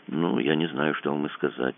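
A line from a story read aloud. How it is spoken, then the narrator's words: Confused mumble. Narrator (Russian): промямлил Кацуба с видом полнейшей растерянности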